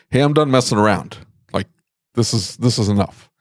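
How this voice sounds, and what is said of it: Stern, firm dad voice. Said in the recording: “you develop your dad voice ... You don't have to scream, but there's a sternness to your voice”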